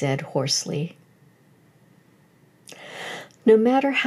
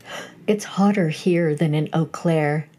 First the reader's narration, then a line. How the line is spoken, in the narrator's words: she said